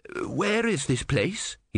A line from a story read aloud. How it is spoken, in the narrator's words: he said hoarsely